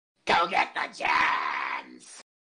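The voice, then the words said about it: Cartoon Diamond Dog character voice. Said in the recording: “can you do a Diamond Dog impression? ... Doesn't have to be a good one. ... it's actually pretty good.”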